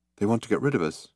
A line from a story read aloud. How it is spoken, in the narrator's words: said Trillian nervously